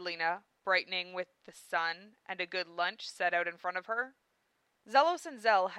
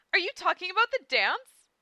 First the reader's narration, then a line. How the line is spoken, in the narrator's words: chirped Amelia